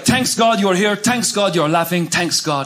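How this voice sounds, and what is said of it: Thick Middle Eastern accent impression. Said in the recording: “My dad is from the Middle East... my dad has a thick accent... don't take the H out of thanks. Turn it into tanks”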